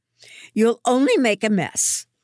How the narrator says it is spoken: Mum snaps

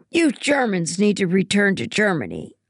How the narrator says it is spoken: she kept shouting

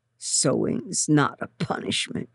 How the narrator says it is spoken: she grumbled

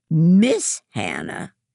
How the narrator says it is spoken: says loudly

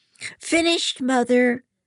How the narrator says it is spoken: Hannah groans

